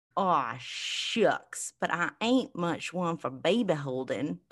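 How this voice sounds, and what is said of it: Put-on Southern drawl. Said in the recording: “Southern accent? ... That's my Southern drawl.”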